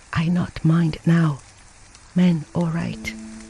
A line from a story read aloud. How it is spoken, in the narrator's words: the sick wife whispered